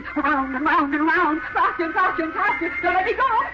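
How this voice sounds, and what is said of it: Screaming. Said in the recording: “Why am I screaming? ... I'll stop screaming.”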